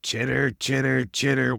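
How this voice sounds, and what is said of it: Spider impersonation, chittering sounds. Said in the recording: “You have to sound like a spider as well. What is your best spider impersonation? ... Oh, it's so real.”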